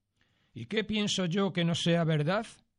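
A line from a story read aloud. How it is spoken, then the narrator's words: Rather piqued exclamation. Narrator (Spanish): exclamó don Pedro, bastante picado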